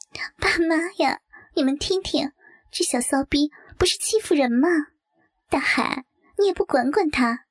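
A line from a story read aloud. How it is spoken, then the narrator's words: Laughing. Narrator (Chinese): 柳月笑道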